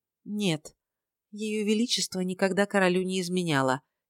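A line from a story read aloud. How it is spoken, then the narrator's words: Quiet. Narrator (Russian): тихо ответила Розабелла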